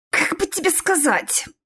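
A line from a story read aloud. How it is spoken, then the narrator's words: Hissing. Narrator (Russian): прошипел я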